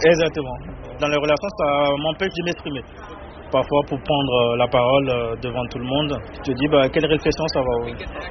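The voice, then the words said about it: Beninese French accent, distinctive R. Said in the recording (French): “Mon accent, c'est... Des fois, il y a par exemple les R qui ne sont pas bien prononcés ... Du Bénin. Je suis béninois.”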